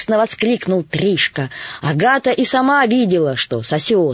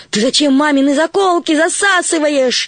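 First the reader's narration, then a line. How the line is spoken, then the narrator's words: Shout. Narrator (Russian): закричала Агата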